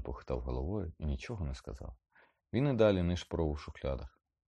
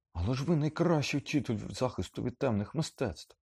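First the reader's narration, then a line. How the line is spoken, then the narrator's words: Exclaimed. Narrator (Ukrainian): вигукнув Гаррі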